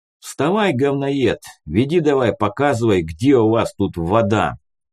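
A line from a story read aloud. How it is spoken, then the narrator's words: Loud command. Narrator (Russian): громко скомандовал Арман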